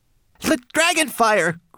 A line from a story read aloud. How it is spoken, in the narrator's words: cried Twigleg